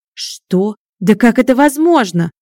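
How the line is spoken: Howling wail. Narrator (Russian): взвыл Григорий

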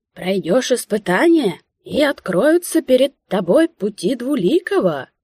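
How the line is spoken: Ringing, quavering proclamation. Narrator (Russian): Звонким дребезжащим голосом вещал тот

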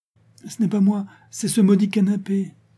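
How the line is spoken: Pleading. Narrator (French): dit, lui adressant un regard suppliant

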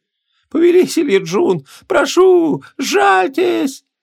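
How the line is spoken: Sobbing woman. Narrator (Russian): всхлипывала красавица

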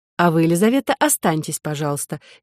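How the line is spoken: Businesslike tone. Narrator (Russian): деловым тоном продолжила Соня

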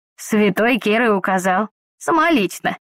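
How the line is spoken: Muffled and humble. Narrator (Russian): глухо донеслось до меня смиренное

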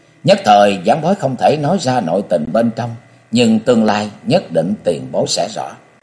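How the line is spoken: Sorrowful sigh. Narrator (Vietnamese): Nam Cung Lượng thở dài một hơi thê lương rồi nói

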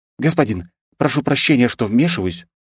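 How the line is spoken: Timid. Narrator (Russian): робко произнесла Айлина

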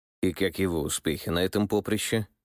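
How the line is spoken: Skeptical king's snort. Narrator (Russian): скептически хмыкнул царь

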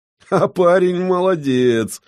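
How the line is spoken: Praising after laughter. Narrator (Russian): отсмеявшись, похвалил Оли

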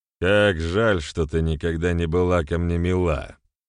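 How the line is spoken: Chuckled. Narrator (Russian): хохотнул он

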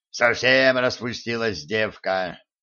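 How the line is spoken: Dejected gnome sighing. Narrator (Russian): удрученно вздохнул гном

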